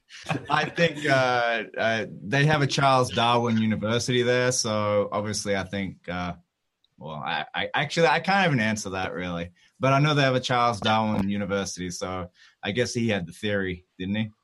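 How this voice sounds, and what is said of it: Noticeable accent, drawn-out vowels. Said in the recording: “I'm not sure if you're aware you have a bit of an accent. ... it's pronounced Darwin with like three A's. ... We're used to the accent here on the show ... I had to decode it.”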